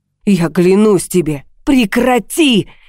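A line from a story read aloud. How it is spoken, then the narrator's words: Shouted. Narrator (Russian): крикнула я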